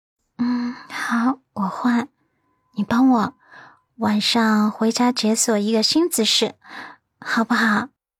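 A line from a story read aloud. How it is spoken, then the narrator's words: Shy, very quiet. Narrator (Chinese): 他的脸颊倏然红了一片，小小声道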